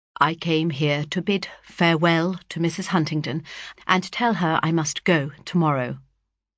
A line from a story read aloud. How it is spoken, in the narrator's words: in a moment he turned calmly round and said carelessly